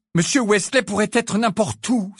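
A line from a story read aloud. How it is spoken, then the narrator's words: Exclaiming. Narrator (French): s'exclama Harry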